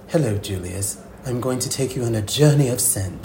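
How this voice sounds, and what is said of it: Attempted British accent. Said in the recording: “forgive me for this British accent that I'm about to try.”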